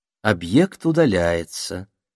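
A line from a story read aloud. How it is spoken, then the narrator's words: Purring voice. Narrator (Russian): промурлыкала в очередной раз Магдалена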